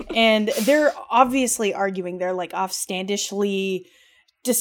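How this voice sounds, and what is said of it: Usual voice. Nothing is said of it.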